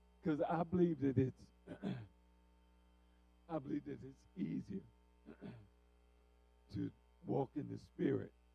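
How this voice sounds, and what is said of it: Voice going hoarse, strained. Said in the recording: “I'm losing my voice”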